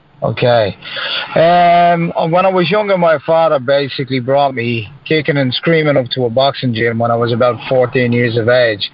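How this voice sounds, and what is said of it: British accent. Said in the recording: “the little pond over here between us and, and the UK ... everybody enjoy his accent”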